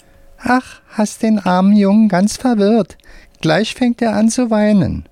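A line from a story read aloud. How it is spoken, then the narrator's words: Squeaky voice. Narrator (German): sagt mit piepsiger Stimme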